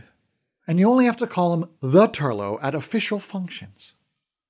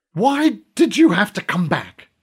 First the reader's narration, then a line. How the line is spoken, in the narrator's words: she hissed